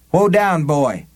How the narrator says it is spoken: Susanna called sharply

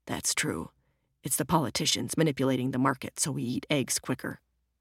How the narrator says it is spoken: muttered

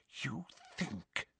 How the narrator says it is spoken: she whispered

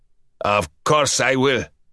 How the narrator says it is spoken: Ustinov sneered

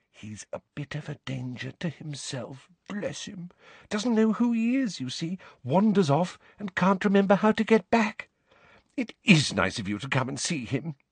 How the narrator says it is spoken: she lowered her voice to a whisper

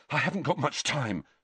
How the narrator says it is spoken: Harry panted

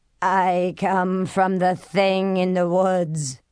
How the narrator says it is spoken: the black robe said in a buzzing, inhuman voice

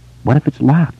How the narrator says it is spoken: Beverly asked in a small voice

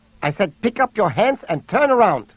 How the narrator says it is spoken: the woman barked in English

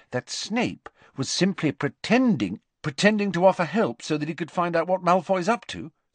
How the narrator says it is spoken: said Harry quickly

